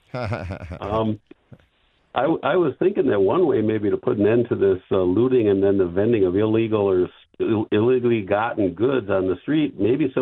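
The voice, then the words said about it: Wisconsin accent. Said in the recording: “Is that really what we sound like, Wisconsin? ... I have an accent, and I've even been accused of being from Canada”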